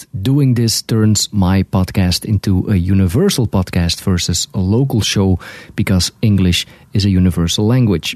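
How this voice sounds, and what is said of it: Belgian Dutch-speaker's accent in English. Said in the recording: “as you can hear, I have an accent. I am a Belgian guy living in Canada, and my native language is Dutch.”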